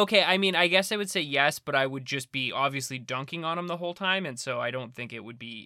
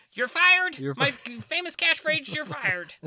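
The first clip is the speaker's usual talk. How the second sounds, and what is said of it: Imitates another person's voice. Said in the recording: “great Donald Trump impression ... That's so bad. That's worse than Alec Baldwin's ... That sounds like Arnold Schwarzenegger.”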